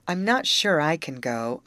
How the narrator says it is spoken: observed Grace slowly

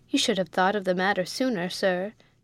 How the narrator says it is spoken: he said

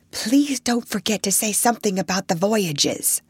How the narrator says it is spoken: thoughtless, selfish little imp that I was, I leaned over and whispered

